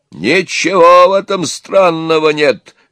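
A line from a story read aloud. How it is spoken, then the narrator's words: Old man exclaiming. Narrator (Russian): воскликнул дед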